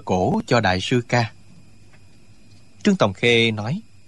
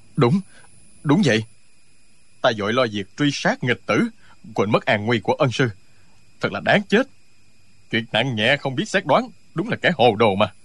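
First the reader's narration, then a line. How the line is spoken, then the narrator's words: Trembling, fearful. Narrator (Vietnamese): Tống Diễn Kiều toát mồ hôi lạnh, giọng run run nói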